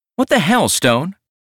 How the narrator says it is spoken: She snapped

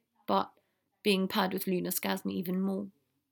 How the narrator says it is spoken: Neville said softly

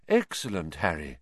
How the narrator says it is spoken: Lupin muttered

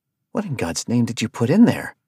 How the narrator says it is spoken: Arthur asked

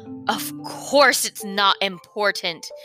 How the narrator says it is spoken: he snarled angrily

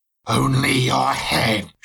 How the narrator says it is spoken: she said with an evil hissing voice

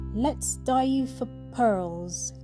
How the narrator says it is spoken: cried

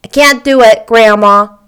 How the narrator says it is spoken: he said

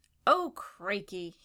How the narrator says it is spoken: cried

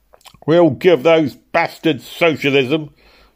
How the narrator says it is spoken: shouted who was literally foaming at the mouth

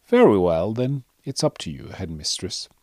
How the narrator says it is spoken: said softly

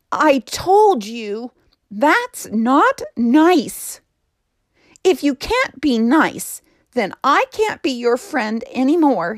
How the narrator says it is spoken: cried

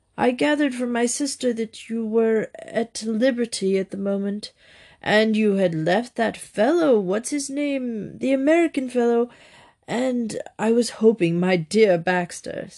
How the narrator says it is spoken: said, speaking thickly, as if the words choked him

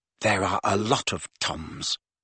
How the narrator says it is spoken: muttered Riddle

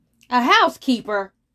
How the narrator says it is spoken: roared Br'er Bear

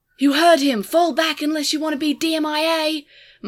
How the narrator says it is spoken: Marvin shouted

